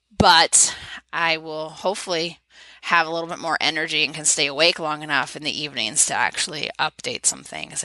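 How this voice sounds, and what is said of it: Sore, fading voice. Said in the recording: “my throat hurts and my voice is going”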